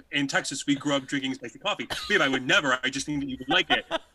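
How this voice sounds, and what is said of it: Imitates another person's voice. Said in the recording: “that amazing impression of me”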